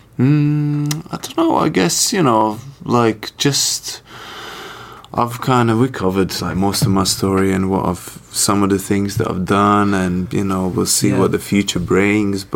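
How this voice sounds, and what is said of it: Mixed Latvian and London accent. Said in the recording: “you've got a little bit. I can hear a little bit of the Latvian, but then I hear the London kind of UK come out. So it's really unique.”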